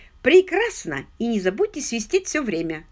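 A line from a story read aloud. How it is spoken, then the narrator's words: Plain. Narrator (Russian): сказал Кэмпион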